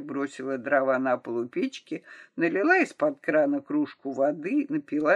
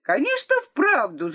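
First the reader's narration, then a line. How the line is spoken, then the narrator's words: Shouting. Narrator (Russian): закричала Лора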